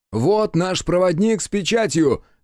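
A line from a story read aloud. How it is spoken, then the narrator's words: Shout. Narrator (Russian): крикнул Хицу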